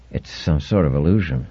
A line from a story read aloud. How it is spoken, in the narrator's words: He muttered